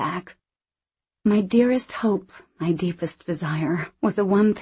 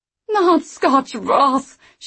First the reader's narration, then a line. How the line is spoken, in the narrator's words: she wailed